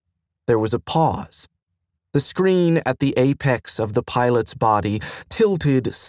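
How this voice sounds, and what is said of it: Usual voice. Nothing is said of it.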